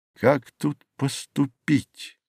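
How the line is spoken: Low voice, musing to himself. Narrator (Russian): произнес он вполголоса, как бы рассуждая сам с собою

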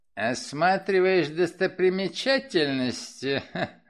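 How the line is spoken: Snorting. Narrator (Russian): хмыкнул он

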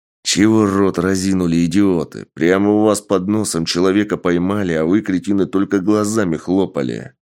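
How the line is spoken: Furious growl. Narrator (Russian): рычал взбешенный Сергей

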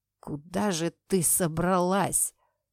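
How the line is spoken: Hoarse wheeze. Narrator (Russian): прохрипел он

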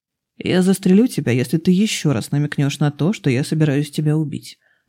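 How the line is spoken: Plain. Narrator (Russian): ответил Реймонд

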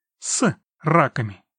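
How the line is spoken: Laughing. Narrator (Russian): он тоже рассмеялся

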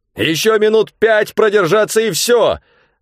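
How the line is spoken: Shouting. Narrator (Russian): закричал я

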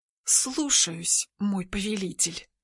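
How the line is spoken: Hissed through teeth. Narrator (Russian): шиплю сквозь зубы

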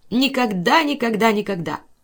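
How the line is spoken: Angry snap. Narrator (Russian): злобно огрызнулась

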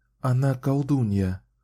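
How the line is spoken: Plain. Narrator (Russian): ответила Кэлен

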